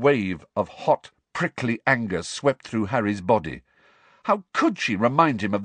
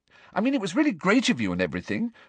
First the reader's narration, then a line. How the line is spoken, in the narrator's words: said Hermione quickly, looking positively petrified at the look on Harry's face